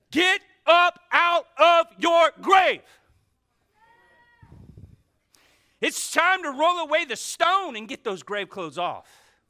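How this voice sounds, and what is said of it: Yelling. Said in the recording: “I'm yelling at you today”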